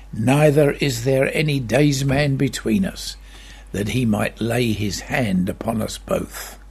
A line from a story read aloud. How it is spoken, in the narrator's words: Job of old, who had similar feelings and cried